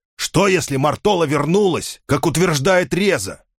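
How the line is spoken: Sharp interruption. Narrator (Russian): резко перебил ее Фенолио

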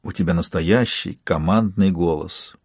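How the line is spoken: Muttering. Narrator (Russian): пробормотала Анжелина

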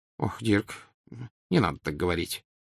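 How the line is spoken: Mumbled. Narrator (Russian): пробормотал Тед

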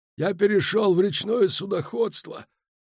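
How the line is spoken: Hoarse rasp. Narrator (Russian): прохрипел он наконец

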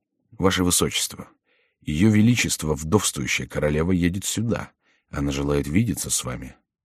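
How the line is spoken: Smiling, hateful whisper. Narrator (Russian): Монсоро с улыбкой на лице, с ненавистью в сердце, шепнул ему

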